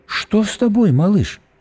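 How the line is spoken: Gentle question. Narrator (Russian): ласково спросила Диана

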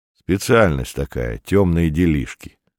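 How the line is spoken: Plain. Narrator (Russian): сказал Ред

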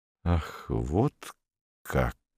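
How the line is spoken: Slow. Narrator (Russian): медленно произнес он

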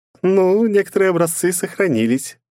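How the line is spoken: Sly giggle. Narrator (Russian): подло хихикнула Бездна

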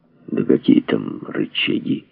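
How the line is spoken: Gloomy voice. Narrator (Russian): мрачно проговорил Андрей

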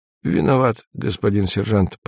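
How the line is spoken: Mumbled. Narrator (Russian): промямлил

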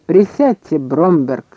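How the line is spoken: Plain. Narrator (Russian): сказал он

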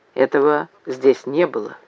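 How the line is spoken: Mutter. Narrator (Russian): пробормотал

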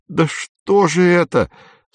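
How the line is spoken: Tearful voice. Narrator (Russian): сказал Сорочинский плачущим голосом

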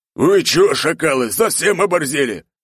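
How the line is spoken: Orc roaring. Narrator (Russian): взревел серый орк

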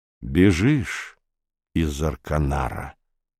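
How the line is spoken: Plain. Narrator (Russian): сказал Румата

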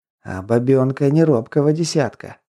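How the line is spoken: Whisper. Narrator (Russian): прошептал Кин

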